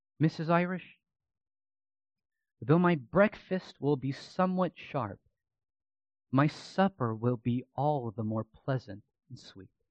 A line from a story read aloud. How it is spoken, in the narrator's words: Irish, Ridley softly said to her